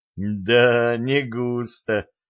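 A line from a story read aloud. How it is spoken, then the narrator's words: Laughing. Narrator (Russian): засмеялся Слава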